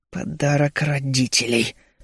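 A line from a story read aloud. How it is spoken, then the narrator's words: Angry, through gritted teeth. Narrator (Russian): сквозь зубы зло выплюнул я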